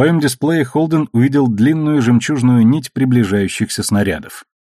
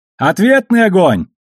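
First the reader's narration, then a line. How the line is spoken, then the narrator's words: Shouting over radio. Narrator (Russian): прокричал по связи Алекс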